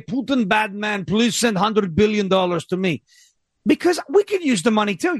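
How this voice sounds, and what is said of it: Put-on Ukrainian accent. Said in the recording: “I'm going to use a Ukrainian accent”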